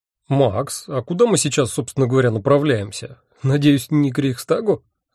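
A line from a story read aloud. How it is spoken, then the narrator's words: Mocking question. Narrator (Russian): насмешливо спросил Анатоль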